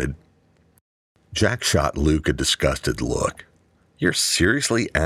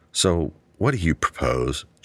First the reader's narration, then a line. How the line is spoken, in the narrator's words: Jack sighed